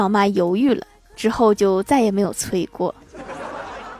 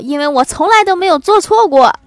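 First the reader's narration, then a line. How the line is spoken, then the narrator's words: Loud. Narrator (Chinese): 我老妈大声地说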